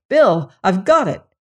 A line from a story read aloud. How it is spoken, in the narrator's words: he cried